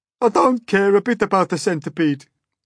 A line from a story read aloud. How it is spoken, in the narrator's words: the earthworm sobbed